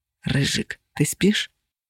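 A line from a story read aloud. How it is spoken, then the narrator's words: Whisper. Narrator (Russian): шепот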